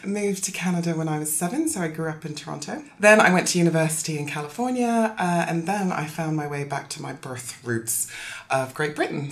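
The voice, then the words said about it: Very odd accent. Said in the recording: “brace yourself for a very odd accent.”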